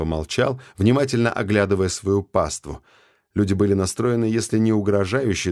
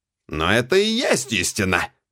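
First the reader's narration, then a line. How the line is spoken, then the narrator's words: Sharp creaky voice. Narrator (Russian): резко проскрипел мистер Ремингтон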